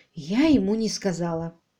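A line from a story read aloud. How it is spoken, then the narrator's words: Quiet. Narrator (Russian): тихо произнесла Селия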